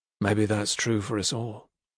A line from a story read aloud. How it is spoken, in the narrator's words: he murmured